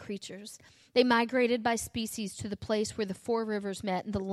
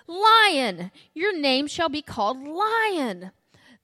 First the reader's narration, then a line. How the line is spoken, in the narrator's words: I pointed to the creature and shouted